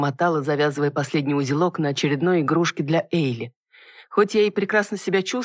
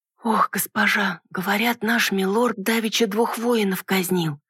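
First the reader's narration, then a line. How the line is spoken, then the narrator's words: Sudden anxious whisper. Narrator (Russian): вдруг зашептала горничная, не выдержав груза, тяготившей ее тайны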